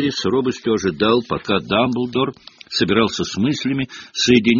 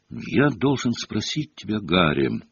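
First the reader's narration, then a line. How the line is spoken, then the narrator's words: Soft. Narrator (Russian): произнес он мягко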